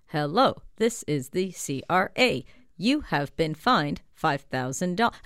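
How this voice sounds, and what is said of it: Robotic automated scam-call voice. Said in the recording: “here's my imitation of it ... it sounds like a robot”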